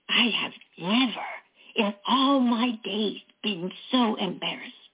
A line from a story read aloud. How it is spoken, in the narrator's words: she whispered